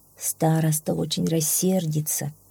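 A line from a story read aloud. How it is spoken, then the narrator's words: Mother's sigh. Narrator (Russian): вздохнула мать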